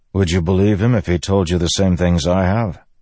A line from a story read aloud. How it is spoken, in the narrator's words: Kadash sighed